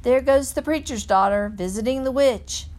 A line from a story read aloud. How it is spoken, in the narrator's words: They would holler